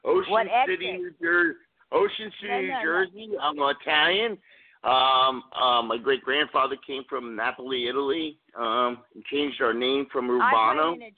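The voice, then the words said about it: New Jersey accent. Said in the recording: “I hear your accent, and it just cracks me up. And I want to know, what exit are you from?”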